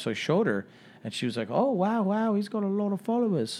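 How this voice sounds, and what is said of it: Put-on Australian accent. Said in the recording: “Australian accent ... That was a good accent.”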